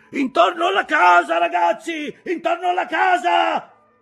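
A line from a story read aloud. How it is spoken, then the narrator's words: Captain shouting, voice changed. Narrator (Italian): gridava il capitano, mutamento nella sua voce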